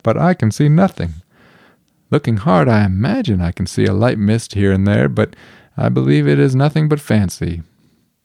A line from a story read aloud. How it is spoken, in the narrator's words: he said with a laugh